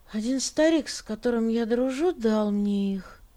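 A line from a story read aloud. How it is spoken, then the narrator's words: Sleepy mumble. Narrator (Russian): сонно пробормотал Лука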